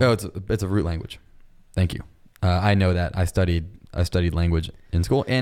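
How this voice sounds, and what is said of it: Usual voice. Nothing is said of it.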